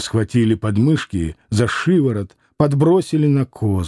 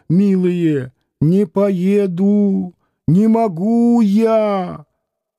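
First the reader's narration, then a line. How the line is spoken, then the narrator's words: Wailing in woman's voice. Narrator (Russian): извозчик завыл женским голосом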